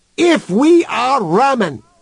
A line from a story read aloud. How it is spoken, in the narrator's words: shouted Human into the speaker's face